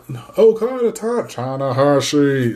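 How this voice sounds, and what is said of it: Jim Ross impression. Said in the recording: “I can't do a Jim Ross impression to save my life”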